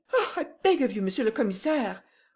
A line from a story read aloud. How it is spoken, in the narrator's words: cried Madame Renaud